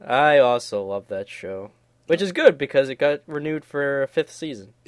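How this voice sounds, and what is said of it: Usual voice. Nothing is said of it.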